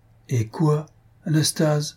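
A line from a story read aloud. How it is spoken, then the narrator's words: Timid pleading. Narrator (French): reprit timidement en le suppliant du regard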